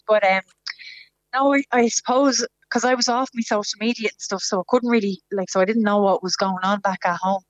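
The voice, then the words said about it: Hoarse, tearful voice. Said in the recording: “My voice is a bit gone now because I'm crying again. ... I just start bawling and welling up.”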